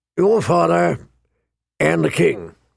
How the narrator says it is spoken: he rumbled

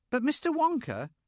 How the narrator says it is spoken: said Charlie Bucket anxiously

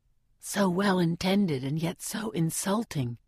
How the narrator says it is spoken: Gale whispers in my ear

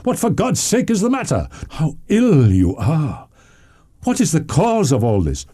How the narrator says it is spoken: cried he

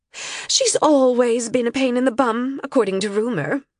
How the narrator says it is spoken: Alassa said

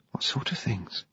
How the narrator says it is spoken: Rose whispered

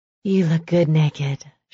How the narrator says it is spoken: she said with a sigh

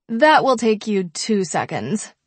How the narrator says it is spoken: she laughs

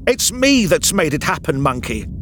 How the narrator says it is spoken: she shouted, suddenly belligerent

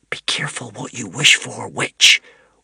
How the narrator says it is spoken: whispered Wish

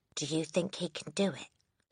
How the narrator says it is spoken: She whispered to Lavender

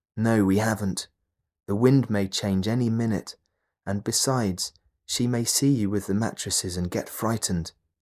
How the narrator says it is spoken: the doctor answered

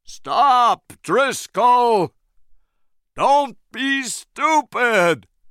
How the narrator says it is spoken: Engelhorn shouted

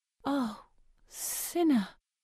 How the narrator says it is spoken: finally whisper

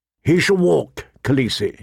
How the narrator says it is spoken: said

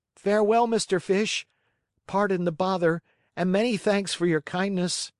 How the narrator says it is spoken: cried the Marionette, scared to death

